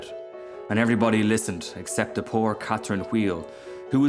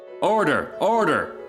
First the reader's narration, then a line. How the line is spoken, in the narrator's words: cried out a cracker